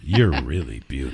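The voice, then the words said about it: Put-on radio announcer voice. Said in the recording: “radio voice”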